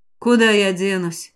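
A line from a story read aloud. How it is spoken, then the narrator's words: Wry snort. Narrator (Russian): хмыкнул Шан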